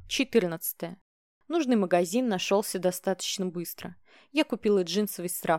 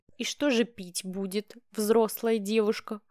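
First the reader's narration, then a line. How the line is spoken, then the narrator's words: Amused snort. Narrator (Russian): хмыкнул он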